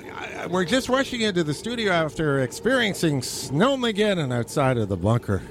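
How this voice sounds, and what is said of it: Out of breath, breathless speech. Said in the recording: “You're all out of breath again.”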